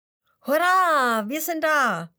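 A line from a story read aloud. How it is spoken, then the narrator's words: Impatient calling. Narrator (German): ruft der Hase voller Ungeduld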